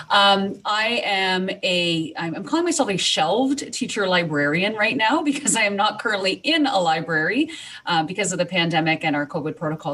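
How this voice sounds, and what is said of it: Slight Canadian accent. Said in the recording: “I'm from Canada, which is why you're going to hear a little bit of an accent. ... I don't think I say a boot, but I do say certain words slightly differently.”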